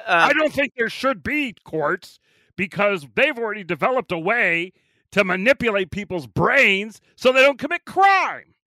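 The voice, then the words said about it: Imitates another person's voice. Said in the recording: “I'm going to take you to court for imitating me. ... Nobody does a better Great Bird.”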